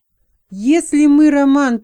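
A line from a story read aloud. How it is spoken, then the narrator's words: Shouting in someone's face. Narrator (Russian): прокричал человек прямо в лицо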